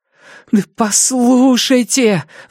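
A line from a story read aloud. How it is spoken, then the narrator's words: Fearful, slurred pleading. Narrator (Russian): взмолился я, от накатившего страха еле ворочая языком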